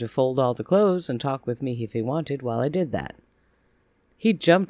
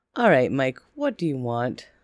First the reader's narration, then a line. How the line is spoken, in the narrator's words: asked, laughing darkly